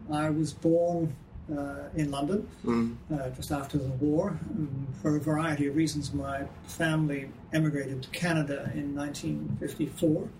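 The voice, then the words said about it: Ambiguous accent, sounds Canadian or American. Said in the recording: “you're a Canadian, right? ... you're an American? ... what's with the accent ... I'm the man with the with no home accent. So wherever I go, people think I'm from somewhere else.”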